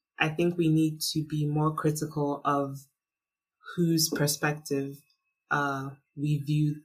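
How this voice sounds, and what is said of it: Usual voice. Nothing is said of it.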